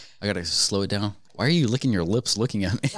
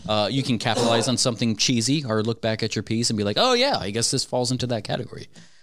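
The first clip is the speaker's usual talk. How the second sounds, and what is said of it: Talking very fast. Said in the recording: “You're talking really fast, like you're in fast motion, kind of.”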